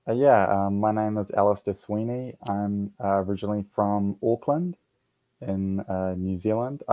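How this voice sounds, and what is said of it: Foreign accent. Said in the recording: “happens to have an accent”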